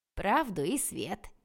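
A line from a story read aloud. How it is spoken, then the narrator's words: Giggling. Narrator (Russian): хихикнул брат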